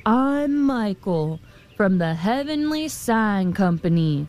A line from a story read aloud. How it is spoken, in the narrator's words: thundered the man